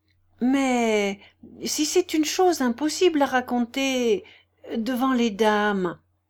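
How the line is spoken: Timid remark. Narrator (French): observa timidement le jeune homme silencieux

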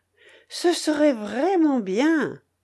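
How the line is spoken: Sighing. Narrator (French): dit Berthe avec un soupir

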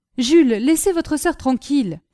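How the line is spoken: Exclaiming. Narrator (French): s'écria la comtesse

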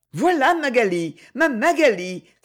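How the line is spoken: Sudden exclamation. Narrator (French): s'écria tout à coup Freddy

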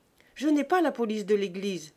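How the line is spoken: Curt, dry. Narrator (French): répondit-il sèchement

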